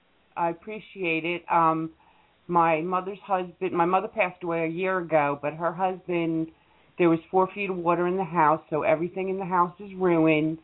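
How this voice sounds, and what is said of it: Northeastern Long Island accent. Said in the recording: “I detect a distinct northeastern accent. ... Long Island”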